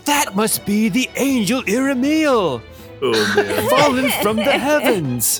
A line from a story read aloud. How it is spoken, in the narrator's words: somebody yell out